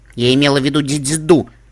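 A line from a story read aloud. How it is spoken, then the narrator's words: Angry. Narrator (Russian): сердито сказала я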